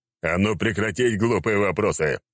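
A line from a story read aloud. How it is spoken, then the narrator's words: Snarl. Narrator (Russian): рыкнул на него Черномор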